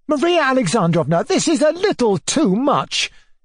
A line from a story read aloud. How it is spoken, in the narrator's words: cried